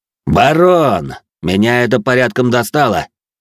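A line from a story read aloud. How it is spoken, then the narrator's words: Loud smirking. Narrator (Russian): Усмехнувшись, громко произнес мой противник, так, чтобы его все слышали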